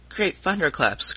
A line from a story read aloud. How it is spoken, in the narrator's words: cried Tom